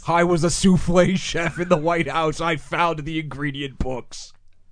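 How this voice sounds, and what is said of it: Terrible Jesse Ventura impression. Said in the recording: “my really terrible Jesse Ventura impression.”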